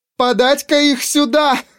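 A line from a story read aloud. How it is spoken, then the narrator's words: Speaking, then bursting into laughter. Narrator (Russian): произнесла и расхохоталась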